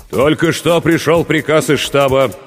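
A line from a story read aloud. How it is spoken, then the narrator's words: Steadier voice. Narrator (Russian): продолжал Борисов окрепшим голосом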